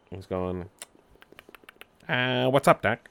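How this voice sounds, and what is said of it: A terrible cartoon character impression. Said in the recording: “That was a terrible impression.”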